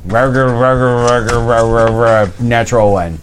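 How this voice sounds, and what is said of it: Imitates another person's voice. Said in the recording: “That was a really good impression.”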